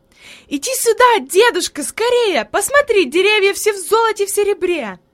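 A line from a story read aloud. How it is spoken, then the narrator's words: Joyful shout. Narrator (Russian): Хайди запрыгала от радости и закричала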